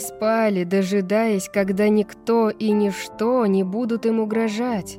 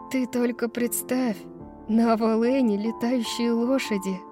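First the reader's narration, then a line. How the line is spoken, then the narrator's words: Mumbling. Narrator (Russian): бормотала Брайс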